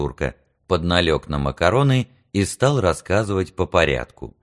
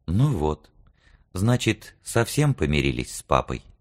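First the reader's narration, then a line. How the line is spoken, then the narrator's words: Quiet question. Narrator (Russian): тихонько спросила Лидия Сергеевна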